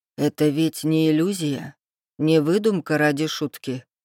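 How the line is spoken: Flat, colorless question. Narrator (Russian): спросил бесцветным голосом

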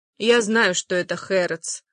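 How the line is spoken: Calm answer. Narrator (Russian): спокойно отвечает Розалинда

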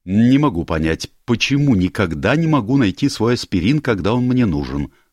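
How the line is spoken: Angry. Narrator (Russian): сказала она сердито

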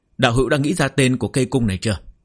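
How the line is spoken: Smiling question. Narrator (Vietnamese): Sở Minh Luyện mỉm cười hỏi

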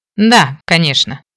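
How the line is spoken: Scoffing snort. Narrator (Russian): хмыкнул мужчина

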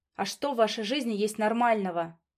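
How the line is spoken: Sudden, sharp, cutting. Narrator (Russian): Вдруг спрашивает он резко, как лезвием по нервам

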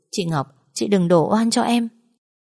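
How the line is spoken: Feigned wailing. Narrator (Vietnamese): khóc lóc quỷ sụp

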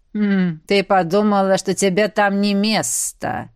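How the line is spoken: Amused snort. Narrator (Russian): хмыкнула Гризелла

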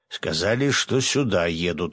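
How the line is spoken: Snorting. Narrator (Russian): хмыкнул Свят

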